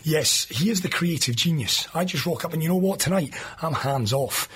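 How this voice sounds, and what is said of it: Strained voice close to giving out. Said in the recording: “My voice is about to clap out at any second.”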